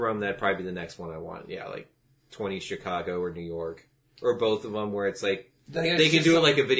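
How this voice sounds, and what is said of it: Usual voice. Nothing is said of it.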